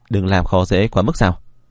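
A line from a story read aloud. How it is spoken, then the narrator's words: Cold dismissive laugh. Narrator (Vietnamese): Vân Phi Sương cười nhạt một tiếng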